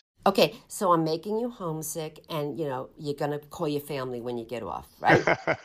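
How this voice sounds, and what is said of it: East Coast New York accent. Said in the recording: “It's very clear you're an East Coast gal... This is so New York, New Jersey.”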